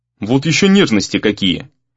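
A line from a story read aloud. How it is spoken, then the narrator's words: Grumbling. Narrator (Russian): проворчал Гризли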